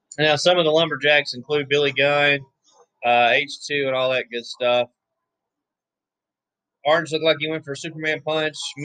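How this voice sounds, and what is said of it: Hoarse, strained voice. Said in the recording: “I'm losing my voice for real.”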